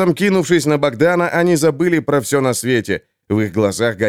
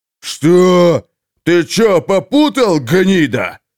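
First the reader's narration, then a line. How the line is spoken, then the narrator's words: Group roaring. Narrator (Russian): взревели они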